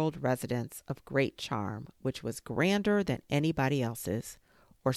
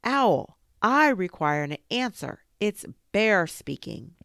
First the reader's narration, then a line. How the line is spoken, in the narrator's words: he called out in a very loud voice